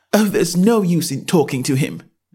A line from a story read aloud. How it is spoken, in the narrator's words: said Alice desperately